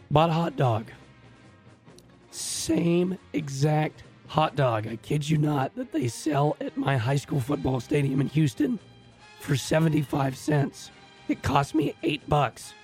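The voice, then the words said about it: Raspy, hoarse voice. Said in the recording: “No wonder your throat hurts. ... That's why he's raspy”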